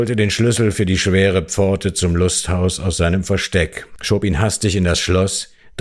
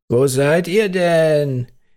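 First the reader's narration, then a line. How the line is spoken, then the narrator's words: Distant, resigned call. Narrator (German): rief Martel nach einer Weile ein wenig resigniert aus der Ferne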